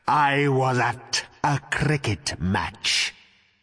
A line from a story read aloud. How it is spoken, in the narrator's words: he rasped